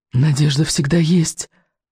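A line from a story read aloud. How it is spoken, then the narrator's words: Whispered. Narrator (Russian): шептал невинность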